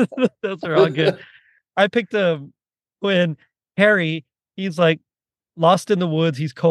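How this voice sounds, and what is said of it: Usual voice. Nothing is said of it.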